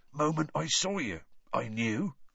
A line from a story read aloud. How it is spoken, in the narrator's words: he was saying in an oddly husky voice